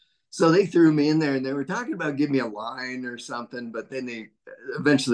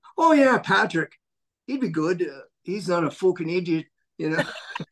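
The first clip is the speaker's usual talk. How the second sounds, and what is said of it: Put-on Irish accent. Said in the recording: “Great Irish accent.”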